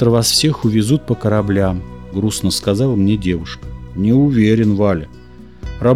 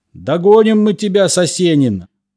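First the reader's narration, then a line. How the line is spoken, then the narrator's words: Police shouting. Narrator (Russian): орали менты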